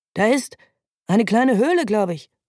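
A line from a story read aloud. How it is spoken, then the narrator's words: Driver calling out. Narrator (German): ruft der Fahrer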